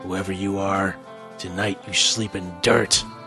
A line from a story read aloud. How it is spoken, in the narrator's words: Blackthorn snarled